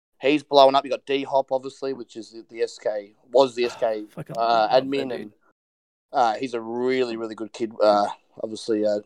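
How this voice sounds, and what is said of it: Australian accent. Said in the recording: “They love our sexy Aussie accent.”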